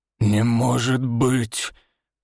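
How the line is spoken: Hoarse, voice cracking high. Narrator (Russian): хрипло выдавливает староста, и голос предательски срывается на верхней ноте

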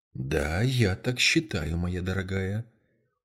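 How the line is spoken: Very soft reply. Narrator (Russian): очень мягко ответила мисс Марпл

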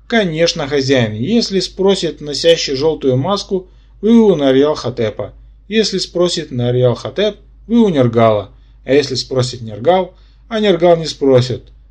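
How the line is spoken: Joyful reply. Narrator (Russian): радостно откликнулся Игорь

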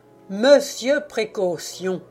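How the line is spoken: Exclaimed. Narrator (French): s'exclama Louarne

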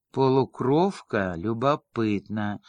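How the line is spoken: Sad chuckle. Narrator (Russian): грустно усмехнулся Вигел

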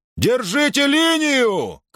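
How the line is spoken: Shouting. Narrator (Russian): крикнул Перикл

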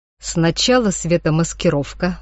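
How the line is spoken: Plain. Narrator (Russian): сказал человек

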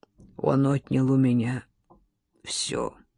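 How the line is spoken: Hoarse voice. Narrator (Russian): хриплым голосом проговорил

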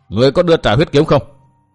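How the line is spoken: Loud. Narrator (Vietnamese): Chàng lớn tiếng bảo

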